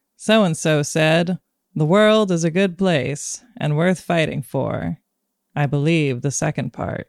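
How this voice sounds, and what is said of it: Poor Morgan Freeman impression. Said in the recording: “terrible Morgan Freeman impression.”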